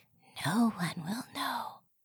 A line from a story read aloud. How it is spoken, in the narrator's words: whispering into his ear